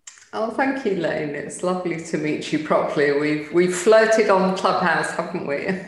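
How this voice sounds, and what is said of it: Delightful British accent. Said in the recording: “she has the delightful British accent”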